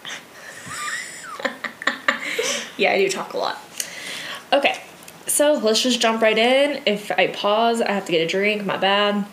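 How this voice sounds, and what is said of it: Scratchy, worn-out voice. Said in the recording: “my voice is scratchy. I've been using it a lot.”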